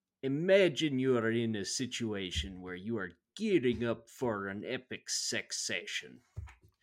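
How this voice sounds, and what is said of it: Put-on thick Italian accent. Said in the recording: “he's got a thick Italian accent ... I got a little Russian, a little Italian.”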